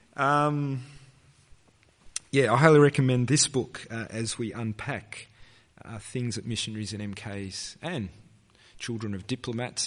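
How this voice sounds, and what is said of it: Strained, fading voice. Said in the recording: “my voice is starting to go because it's been a long day”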